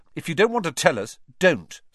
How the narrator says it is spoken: snapped Ron

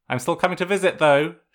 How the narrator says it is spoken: she added, almost sharply

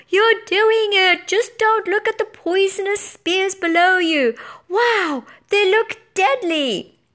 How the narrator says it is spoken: Blue Rider yelled

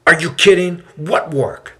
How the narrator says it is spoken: the man yells out

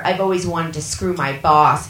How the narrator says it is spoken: she said

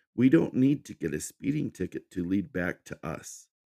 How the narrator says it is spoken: Fiona said in a calm voice

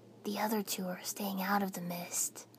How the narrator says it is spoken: Naruto said quietly, sounding put out

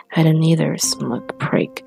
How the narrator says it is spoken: Red muttered

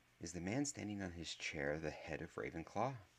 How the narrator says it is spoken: Harry whispered towards Hermione

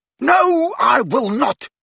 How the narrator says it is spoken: yelled Ginny beside herself

